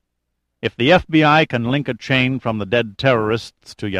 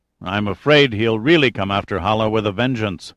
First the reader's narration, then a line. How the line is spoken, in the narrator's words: said the senator